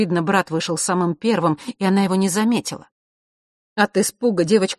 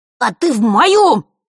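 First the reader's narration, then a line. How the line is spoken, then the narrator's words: Hysterical shout. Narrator (Russian): истерично выкрикнул Норт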